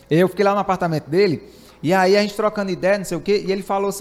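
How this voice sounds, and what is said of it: Northeastern Brazilian accent, fast speech. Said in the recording (Portuguese): “vocês que vêm do Nordeste ... esse sotaque aí ... É o jeito que eu falo ... Eu falo rápido, eu falo acelerado, eu falo enrolado”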